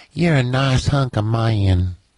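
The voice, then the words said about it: Put-on southern woman voice. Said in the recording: “that voice you just did ... Your southern woman ... give Mike your southern woman”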